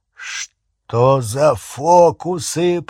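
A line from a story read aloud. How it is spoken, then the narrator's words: Growling. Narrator (Russian): прорычал Хагрид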